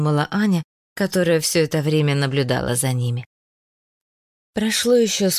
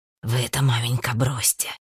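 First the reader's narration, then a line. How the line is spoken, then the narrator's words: Whispered. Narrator (Russian): шептал Марк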